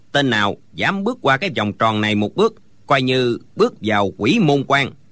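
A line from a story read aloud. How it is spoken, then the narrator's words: Cold old man. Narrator (Vietnamese): lão lạnh lùng nói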